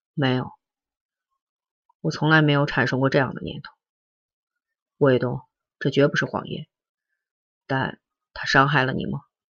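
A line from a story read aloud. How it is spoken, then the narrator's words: Sighing, soft. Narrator (Chinese): 良久，他叹了一口气，轻声说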